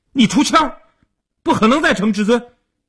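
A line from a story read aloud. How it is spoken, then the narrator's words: Anxious loud shout. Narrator (Chinese): 阿生急了，大声地嚷道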